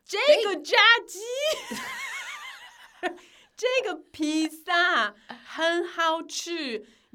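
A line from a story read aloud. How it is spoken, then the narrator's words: Loud. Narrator (Chinese): 那个黑子就很大声的说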